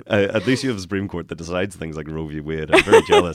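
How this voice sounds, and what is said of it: Northern Irish accent. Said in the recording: “I am from Northern Ireland ... Sound a bit more like I'm in the name of the Father now.”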